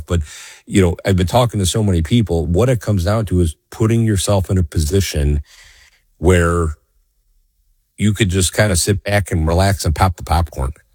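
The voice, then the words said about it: Slightly scratchy, strained voice. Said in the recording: “my voice may be a little scratchy today, folks. So I apologize as I'm not my normal self.”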